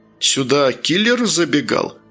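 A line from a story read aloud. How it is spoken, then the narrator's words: Laughing question. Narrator (Russian): смеясь спросила Никея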